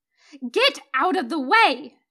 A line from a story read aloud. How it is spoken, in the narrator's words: She yells, hanging out of the window